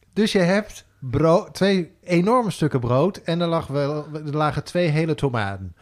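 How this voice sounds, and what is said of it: Sudden put-on accent. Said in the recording (Dutch): “En waarom ga je ineens met een accent?”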